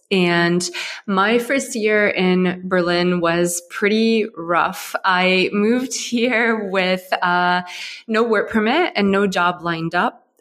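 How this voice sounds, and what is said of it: American accent. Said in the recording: “you might be able to hear from my accent. I'm not originally German. I come from Ohio in the U.S.”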